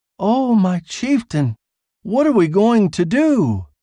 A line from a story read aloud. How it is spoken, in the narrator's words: Theja Doris cried again